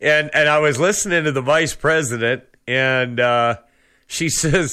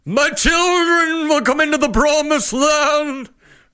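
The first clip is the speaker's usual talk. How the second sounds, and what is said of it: Preacher-style sermon voice. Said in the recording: “The preacher voice, right?”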